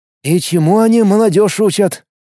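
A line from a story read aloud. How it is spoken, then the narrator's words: Sighed. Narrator (Russian): вздохнул Влад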